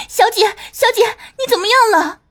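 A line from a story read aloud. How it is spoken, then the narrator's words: Alarmed scream. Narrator (Chinese): 梅雪惊叫着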